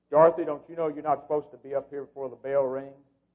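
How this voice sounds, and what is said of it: Deep stern teacher voice. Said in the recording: “in my deepest teacher voice.”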